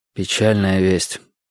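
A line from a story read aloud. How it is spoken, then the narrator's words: Sighing. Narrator (Russian): вздохнул я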